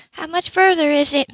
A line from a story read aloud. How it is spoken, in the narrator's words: Manette asked anxiously